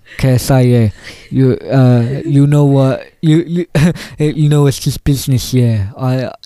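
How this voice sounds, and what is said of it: A deliberately bad imitation of another person's voice. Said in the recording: “do a very bad impression of Trippie Red”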